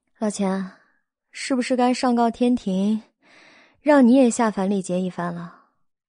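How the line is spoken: Soft sigh. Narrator (Chinese): 肖九九轻叹道

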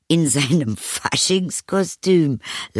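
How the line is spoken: Laughing mother. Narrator (German): lachte die Mutter

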